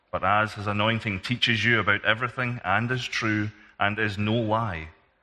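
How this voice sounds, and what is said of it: Scottish accent. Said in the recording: “Sounds more inspired in a Scottish accent”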